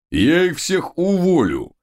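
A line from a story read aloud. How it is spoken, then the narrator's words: Mighty growl. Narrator (Russian): прорычал могучий Тесноглидик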